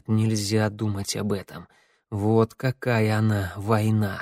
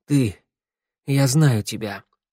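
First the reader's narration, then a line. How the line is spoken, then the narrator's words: Hoarse. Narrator (Russian): хрипло сказал Тео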